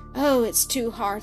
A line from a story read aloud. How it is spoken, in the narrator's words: sighed Blanche